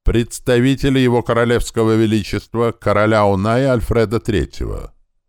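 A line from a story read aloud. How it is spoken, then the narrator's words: Old man's loud announcement. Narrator (Russian): старичок громко возвестил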